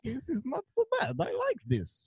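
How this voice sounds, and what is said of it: Put-on Sokovian Eastern European accent. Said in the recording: “My accent is perfect ... They both have these Sokovian accents”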